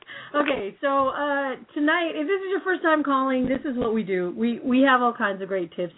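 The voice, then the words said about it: Hoarse, strained voice. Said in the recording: “I'm losing my voice today. Yelling for the A's the other day. Actually, for the Niners the other night, too.”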